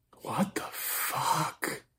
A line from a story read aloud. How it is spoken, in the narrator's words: Nathan whispered